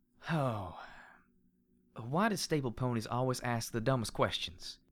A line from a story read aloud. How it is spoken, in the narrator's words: She asked in turn with a sigh and a frown